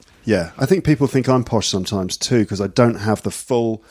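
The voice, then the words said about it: Slight nasal Midlands English accent. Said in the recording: “You've got a little accent, haven't you? ... A little nasal. ... maybe a little bit of a Midlands sometimes”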